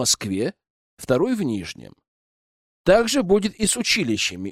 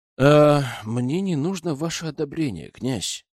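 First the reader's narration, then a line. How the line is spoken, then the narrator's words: Calm reply. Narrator (Russian): спокойно отвечаю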